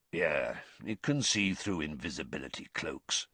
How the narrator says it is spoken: Moody said quietly

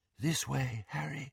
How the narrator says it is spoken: breathed Luna

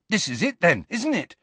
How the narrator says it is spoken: said Ron excitedly

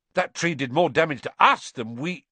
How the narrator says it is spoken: Ron blurted out

